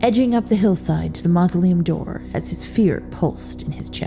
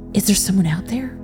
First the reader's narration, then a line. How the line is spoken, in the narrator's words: Robert whispered nervously